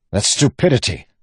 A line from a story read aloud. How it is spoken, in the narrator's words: Wax snapped